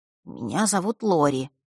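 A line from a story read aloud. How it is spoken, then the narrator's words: Quiet. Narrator (Russian): тихо представился он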